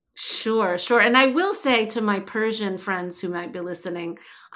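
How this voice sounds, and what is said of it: Slight New Jersey accent. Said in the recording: “I have a little bit of a Jersey accent. ... grew up in Jersey.”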